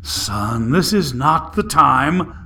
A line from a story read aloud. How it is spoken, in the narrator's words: Smiling through gritted teeth, his father said